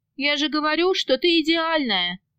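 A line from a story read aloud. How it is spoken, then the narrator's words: Boss's sigh. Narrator (Russian): вздохнул босс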